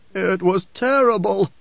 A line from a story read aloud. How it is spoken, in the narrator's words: the man groaned